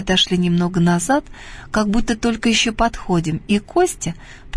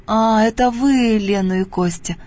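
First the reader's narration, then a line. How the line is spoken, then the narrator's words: Absent, distracted tone. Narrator (Russian): произнесла она отсутствующим тоном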